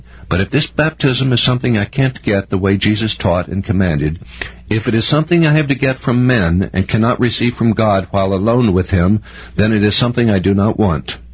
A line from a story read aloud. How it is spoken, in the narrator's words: replied firmly